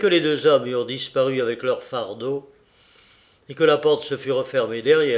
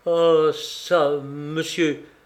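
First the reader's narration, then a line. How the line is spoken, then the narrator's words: Flustered stammering. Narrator (French): balbutia le directeur de l'agence Celeritas, violemment décontenancé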